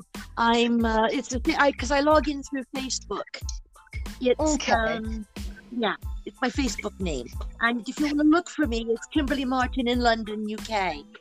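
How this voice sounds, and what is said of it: American accent mixed with British. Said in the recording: “I just love your accent ... you've still got an American accent ... you sound so British”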